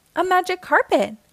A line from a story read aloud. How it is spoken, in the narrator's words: Aladdin exclaimed